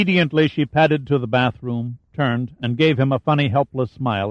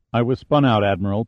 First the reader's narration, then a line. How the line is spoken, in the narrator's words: Pitt answered